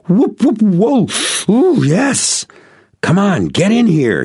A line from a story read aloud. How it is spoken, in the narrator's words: he shot up out of the water with a great whoosh, exclaiming